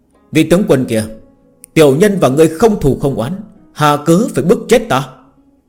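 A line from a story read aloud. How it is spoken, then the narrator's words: Loud shout. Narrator (Vietnamese): hét lớn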